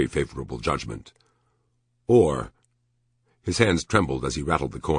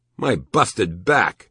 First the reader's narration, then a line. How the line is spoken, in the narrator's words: He exclaimed, horrified